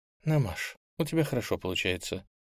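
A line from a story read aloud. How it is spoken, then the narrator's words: Whispered. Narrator (Russian): прошептала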